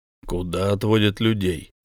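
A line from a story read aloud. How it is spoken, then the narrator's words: Rude question. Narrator (Russian): грубо спросил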